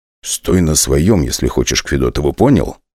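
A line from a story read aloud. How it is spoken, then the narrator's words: Whispered. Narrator (Russian): шепнул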